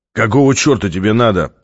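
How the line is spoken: Hoarse growl, New York accent. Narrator (Russian): прорычал он хриплым голосом с явным нью-йоркским акцентом

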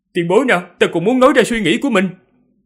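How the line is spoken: Startled, raised voice. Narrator (Vietnamese): Từng Mục bị dọa cho giật mình, cao giọng nói

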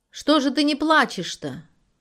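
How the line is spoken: Shouted. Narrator (Russian): крикнула Мариша

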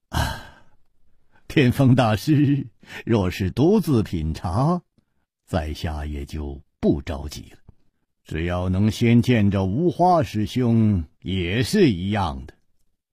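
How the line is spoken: Relieved smiling. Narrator (Chinese): 楚留香松了一口气，展颜笑道

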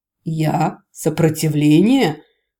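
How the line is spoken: Hoarse giggle. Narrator (Russian): хрипно хихикнул Рос

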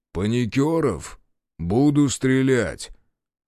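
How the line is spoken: Weighty and muffled. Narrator (Russian): голос Захара звучал веско и глухо

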